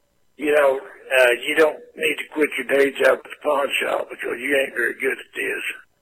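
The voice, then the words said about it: Older man, redneck hillbilly accent. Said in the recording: “You sound like a dumb redneck hillbilly, dude... You sound like an older gentleman”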